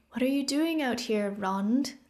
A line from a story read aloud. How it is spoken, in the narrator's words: Thea asked kindly